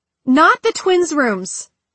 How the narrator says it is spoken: Tessa shouted

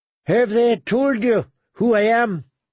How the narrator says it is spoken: Sir Gregor grunted through his breaths

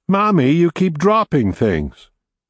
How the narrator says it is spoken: Julie said loudly

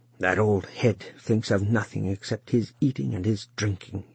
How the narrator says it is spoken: he muttered into the mouth of the oven

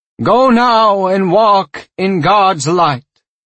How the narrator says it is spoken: he said, his voice amplified 100 times by the microphone on his lapel

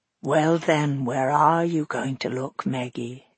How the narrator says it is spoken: whispered

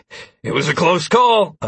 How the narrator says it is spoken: I exclaimed

